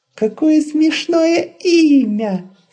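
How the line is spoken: Laughing small creature. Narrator (Russian): засмеялся комочек

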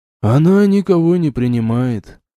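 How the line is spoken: Butler, sighing, near tears. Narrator (Russian): вздохнул дворецкий, и в глубине его глаз заблестели слезы

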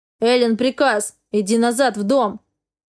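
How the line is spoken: Barked order. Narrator (Russian): рявкнул Хартман

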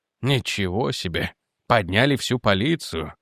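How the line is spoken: Mumbled. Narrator (Russian): пробормотал он

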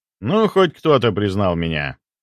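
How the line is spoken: Snorted. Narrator (Russian): хмыкнул я

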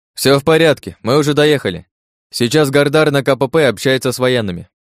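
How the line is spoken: Loud. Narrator (Russian): я громко произнес

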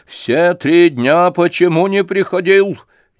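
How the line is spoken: Impatient shout. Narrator (Russian): нетерпеливо крикнула

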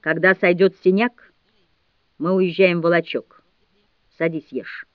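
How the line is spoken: Calm. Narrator (Russian): спокойно сказала

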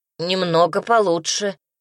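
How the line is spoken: Gloomy wheeze. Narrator (Russian): мрачно прохрипела я

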